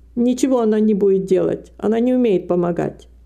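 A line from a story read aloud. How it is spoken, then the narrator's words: Plain. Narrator (Russian): сказала миссис Пурселл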